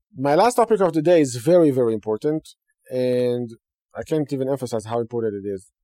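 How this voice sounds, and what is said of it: Broken English with Hebrew accent. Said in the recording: “in a broken English with a Hebrew accent”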